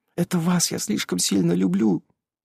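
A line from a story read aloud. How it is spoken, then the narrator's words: Quick, barely audible whisper. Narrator (Russian): Я прошептала ему чуть слышным и быстрым голосом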